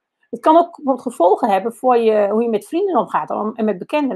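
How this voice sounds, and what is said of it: Achterhoek regional Dutch accent. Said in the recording (Dutch): “dat accent ... Ik woon inmiddels al langer in Den Haag dan ik ooit in de Achterhoek heb gewoond. Maar dat blijf je horen.”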